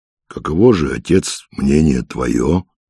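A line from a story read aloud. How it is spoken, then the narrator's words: Plain. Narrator (Russian): спросил Филофей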